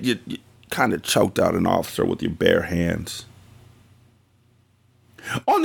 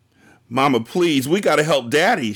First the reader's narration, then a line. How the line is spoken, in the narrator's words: was crying hysterically